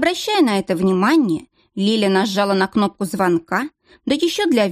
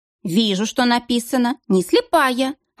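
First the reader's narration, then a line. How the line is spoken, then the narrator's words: Snapping. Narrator (Russian): огрызнулась Лиля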